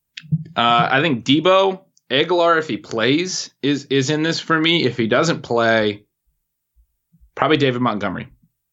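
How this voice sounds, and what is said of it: Country-sounding Northwest American accent. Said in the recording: “you have an accent. ... maybe I sound like a country boy or something? ... You said Aguilar, like Aguilar almost. ... It must be a Northwest thing.”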